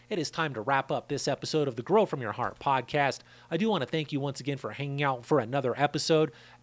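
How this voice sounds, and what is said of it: Tired, dry, strained voice. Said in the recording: “I'm sure you can hear my voice is burning out and getting dry.”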